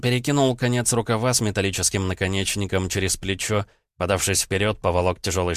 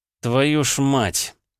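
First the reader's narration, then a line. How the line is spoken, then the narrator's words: Helpless groan. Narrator (Russian): застонал от бессилия Журавлев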